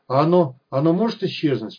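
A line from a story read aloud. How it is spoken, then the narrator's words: Trembling voice question. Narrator (Russian): спросил он дрожащим голосом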